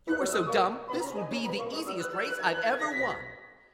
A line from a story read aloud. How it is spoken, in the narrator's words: The hare just laughed and said